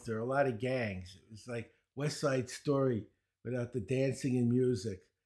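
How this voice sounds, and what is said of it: Brooklyn accent. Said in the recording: “You might notice I have a Brooklyn accent”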